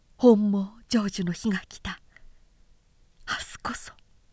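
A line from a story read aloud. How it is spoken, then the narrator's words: Muttered alone. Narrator (Japanese): と一人つぶやきながら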